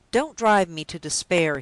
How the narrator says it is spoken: he cried with a startling abruptness

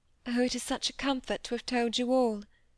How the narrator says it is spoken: murmured Cynthia

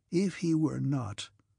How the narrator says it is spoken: he said quietly

